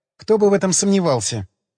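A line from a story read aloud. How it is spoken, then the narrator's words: Sigh. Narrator (Russian): вздохнула Людочка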